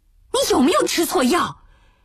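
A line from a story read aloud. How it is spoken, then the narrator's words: Shouting. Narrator (Chinese): 方希龄就嚷了起来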